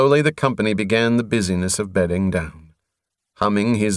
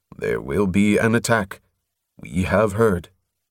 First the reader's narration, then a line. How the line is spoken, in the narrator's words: Tuvor's voice carried softly